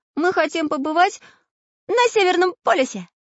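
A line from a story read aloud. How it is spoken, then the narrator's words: Joyful squeal. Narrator (Russian): взвизгнул радостно Прутик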